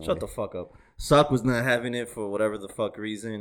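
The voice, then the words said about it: Foreign accent. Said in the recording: “I might say it wrong because of my accent ... I have a fucking accent”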